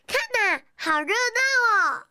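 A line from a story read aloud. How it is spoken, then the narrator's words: Loud shout. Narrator (Chinese): 小麦大叫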